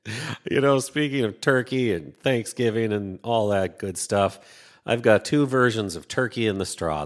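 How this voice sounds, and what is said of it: Minnesotan accent. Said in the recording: “my accent is Minnesotan”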